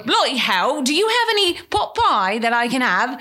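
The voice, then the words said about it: Exaggerated put-on English countryside accent. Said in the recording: “I only spoke with a British accent... Would you change the accent depending on what part of England you were? ... Oh, yes. When I went to the countryside, I really bought it.”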